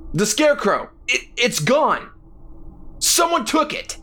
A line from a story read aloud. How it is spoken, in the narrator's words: Jack shouted